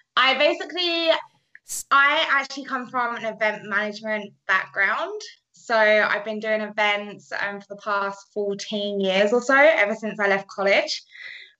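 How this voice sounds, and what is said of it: British accent. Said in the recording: “I'm British, if you haven't have heard that accent.”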